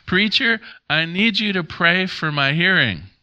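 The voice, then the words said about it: Somewhat loud old man's voice. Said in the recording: “in a somewhat loud voice,”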